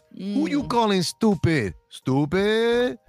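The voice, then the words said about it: Rosie Perez Puerto Rican New York accent. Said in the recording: “Rosie Perez ... Hella Puerto Rican, New York accident. Accident. Accent.”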